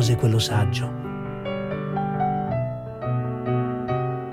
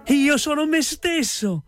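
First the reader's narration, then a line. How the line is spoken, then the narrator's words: Happy shout. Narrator (Italian): gridò Pezzettino tutto contento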